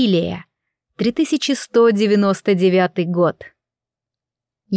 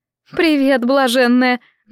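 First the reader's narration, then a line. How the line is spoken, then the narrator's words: Mocking. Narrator (Russian): насмешливо улыбнулась она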